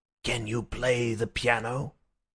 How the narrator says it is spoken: he said in a low voice

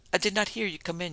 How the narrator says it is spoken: she whispered

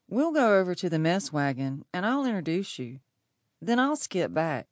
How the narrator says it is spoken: said Billy

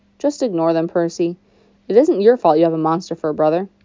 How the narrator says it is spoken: Annabeth grumbled

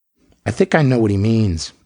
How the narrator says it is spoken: Lingman said sadly

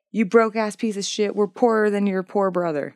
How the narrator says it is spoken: She became overwhelmed with envy, and when her husband Kasim came home, she yelled at him

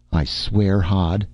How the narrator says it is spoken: she said in a low, laughing voice

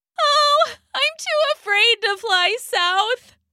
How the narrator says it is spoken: she wailed

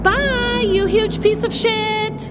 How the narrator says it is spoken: Jane yelled after him

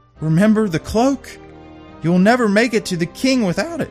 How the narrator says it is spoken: the sister pleaded with her, saying

